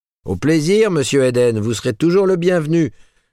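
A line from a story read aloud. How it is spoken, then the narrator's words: Laughing shout from above. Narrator (French): cria-t-on en s'esclaffant du haut du palier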